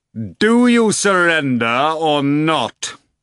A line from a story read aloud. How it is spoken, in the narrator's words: Volant shouted in a fearsome voice